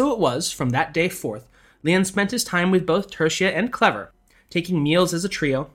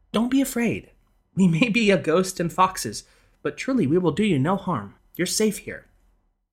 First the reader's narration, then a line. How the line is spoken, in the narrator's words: Tertia sensed his rising panic and motioned him to remain calm, telling him soothingly